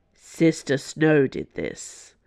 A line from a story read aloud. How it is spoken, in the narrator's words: said Sister Volantis grimly